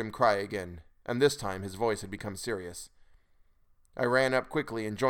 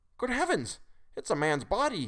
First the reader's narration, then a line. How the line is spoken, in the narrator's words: he cried excitedly